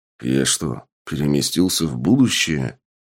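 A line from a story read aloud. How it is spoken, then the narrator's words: Mutter. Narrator (Russian): пробормотал Сергей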